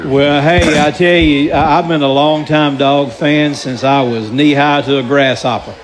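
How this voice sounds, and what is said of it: Southern US Georgia accent. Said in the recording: “I'm a native Georgian. If you can't tell my accent, you sure can't.”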